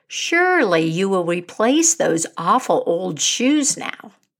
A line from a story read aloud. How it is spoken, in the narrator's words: the man said